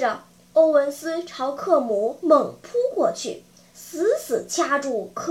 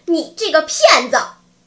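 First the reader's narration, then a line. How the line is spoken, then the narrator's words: Furious loud cursing. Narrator (Chinese): 欧文斯怒火中烧，大声咒骂道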